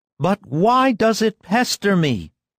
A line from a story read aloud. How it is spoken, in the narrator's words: cried in a thin, querulous voice